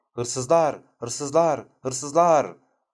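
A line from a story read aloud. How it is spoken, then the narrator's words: Shouting to frighten. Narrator (Turkish): diye bağırarak korkutmuştu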